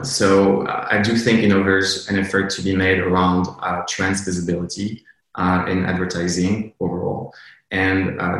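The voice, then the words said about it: Speaks English with an accent. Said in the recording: “I'm sorry, accent.”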